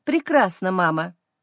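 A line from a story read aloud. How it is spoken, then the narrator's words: Cold. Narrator (Russian): говорю холодно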